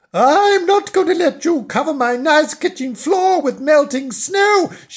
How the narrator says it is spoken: she cried

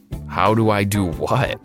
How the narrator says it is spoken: I chuckled

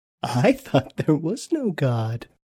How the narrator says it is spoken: she laughed

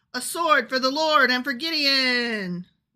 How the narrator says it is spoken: they all shouted

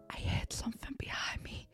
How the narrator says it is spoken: Gareth whispered

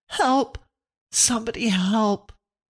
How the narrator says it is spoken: heard them scream thickly

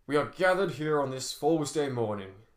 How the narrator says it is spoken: said the warden in a booming voice

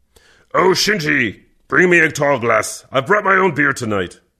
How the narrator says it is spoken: Kervek grunted

